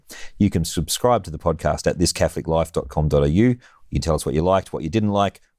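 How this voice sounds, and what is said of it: Australian accent with slight New Zealand tinge. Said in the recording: “If my accent sounded a little bit New Zealand to my Aussie audience”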